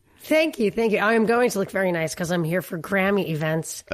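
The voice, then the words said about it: Hoarse voice, laryngitis. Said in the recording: “your voice has a little laryngitis ... my voice is giving out already”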